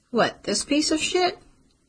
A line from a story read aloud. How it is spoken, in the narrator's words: Charlie laughed